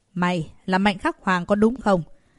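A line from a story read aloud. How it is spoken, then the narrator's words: Cold. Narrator (Vietnamese): Gã ta lạnh lùng nói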